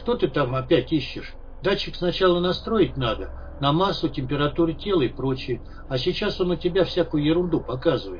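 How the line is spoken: Sad. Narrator (Russian): Сказал печально

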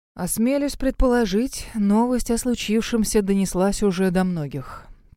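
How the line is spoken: Mournful voice. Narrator (Russian): проговорил скорбным голосом

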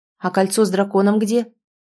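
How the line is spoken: Sharp question. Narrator (Russian): спросила резко

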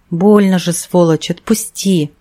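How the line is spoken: Hissing. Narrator (Russian): Тот зашипел

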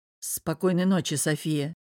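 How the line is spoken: Sigh. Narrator (Russian): вздохнул Павел

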